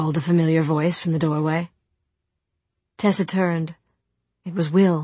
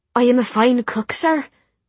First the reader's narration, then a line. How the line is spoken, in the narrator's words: she said in a lilting Irish accent